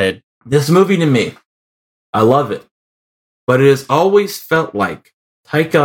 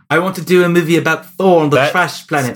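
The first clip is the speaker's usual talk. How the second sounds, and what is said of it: Bad put-on New Zealand accent. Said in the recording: “my really bad New Zealand accent ... Still sounds like Bono”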